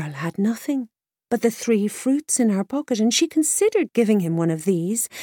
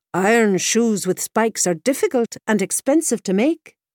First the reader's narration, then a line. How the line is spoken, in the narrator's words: said the blacksmith